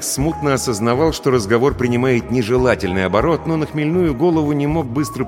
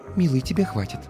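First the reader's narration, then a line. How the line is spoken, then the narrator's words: Whisper. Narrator (Russian): Стелла прошептав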